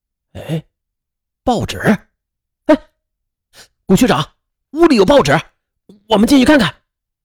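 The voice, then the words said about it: Hushed, startled exclamation. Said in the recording (Chinese): “小声的惊叫着”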